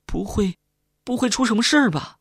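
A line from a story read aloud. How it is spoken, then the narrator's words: Tearful question. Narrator (Chinese): 小李带着哭腔问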